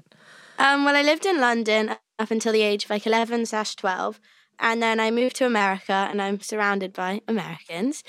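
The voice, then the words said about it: British accent. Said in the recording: “you sound a little different in person than when you are playing Annie... I'm British.”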